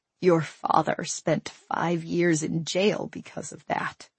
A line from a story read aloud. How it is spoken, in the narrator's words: my mother said quietly